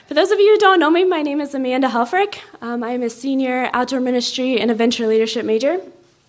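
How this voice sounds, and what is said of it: Out of breath speaking. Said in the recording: “I'm out of breath too.”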